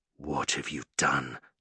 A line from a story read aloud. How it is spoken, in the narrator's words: Noah had hissed